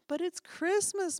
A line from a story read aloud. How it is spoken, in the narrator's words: moaned Barrington